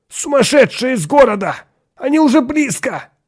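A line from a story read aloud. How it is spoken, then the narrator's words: Shouted, breaking voice. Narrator (Russian): крикнул прерывающимся голосом Атон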